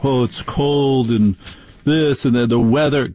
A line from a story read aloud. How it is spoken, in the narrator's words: they're all whining